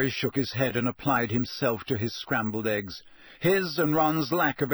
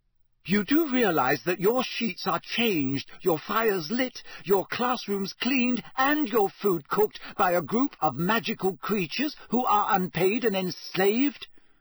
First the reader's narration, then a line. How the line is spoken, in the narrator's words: she kept saying fiercely